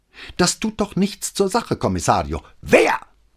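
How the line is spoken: Harsh barking. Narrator (German): bellte Brunetti ihn an

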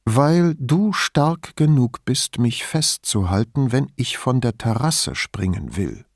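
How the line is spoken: Calm, matter-of-fact. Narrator (German): sagte so ruhig, als würde sie einem Fremden auf der Straße den Weg erklären

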